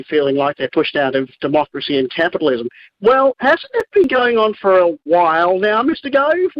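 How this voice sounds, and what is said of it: Australian accent. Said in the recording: “I love the way you say Michael Gove ... in an Australian accent, it's so great.”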